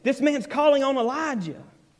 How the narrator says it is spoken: some of the bystanders hearing it said

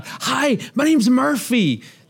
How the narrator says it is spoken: she yells out

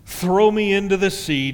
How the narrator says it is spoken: Jonah said

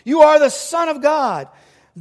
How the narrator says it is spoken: demons came out of many people shouting

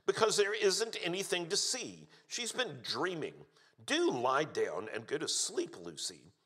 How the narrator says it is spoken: snapped Susan

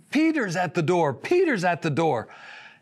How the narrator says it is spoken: She exclaimed

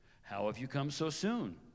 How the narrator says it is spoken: he asked

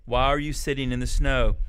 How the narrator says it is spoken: he said in a gentle voice

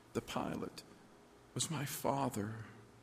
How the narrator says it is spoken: I said quietly

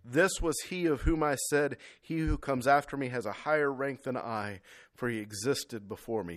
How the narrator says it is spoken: John testified about him and cried out

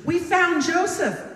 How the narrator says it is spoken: they exclaimed

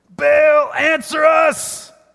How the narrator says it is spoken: They shouted

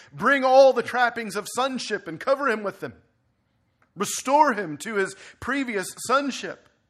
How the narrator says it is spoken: begins to scream

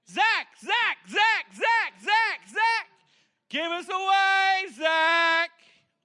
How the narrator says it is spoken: about 100 people start yelling

